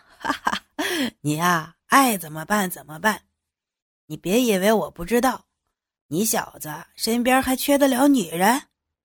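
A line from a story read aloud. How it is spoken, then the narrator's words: Laughing. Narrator (Chinese): 牛菊笑着说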